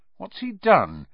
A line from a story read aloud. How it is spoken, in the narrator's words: said Harry nervously